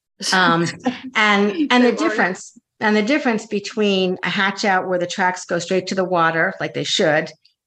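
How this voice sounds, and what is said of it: Strained, fading hoarse voice. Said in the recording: “I'm losing my voice.”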